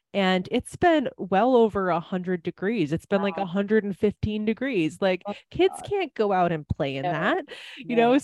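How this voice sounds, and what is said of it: Wisconsin accent. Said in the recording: “I lived in Wisconsin for a very long time, people might be able to tell that from my accent”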